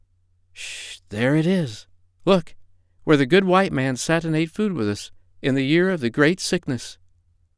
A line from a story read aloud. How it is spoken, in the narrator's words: monkey mothers whisper to their children